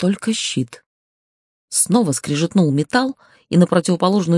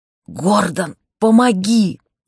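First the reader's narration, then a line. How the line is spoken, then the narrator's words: Hoarse croak. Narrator (Russian): прохрипела я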